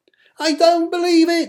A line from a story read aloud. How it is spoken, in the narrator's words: screamed the little bug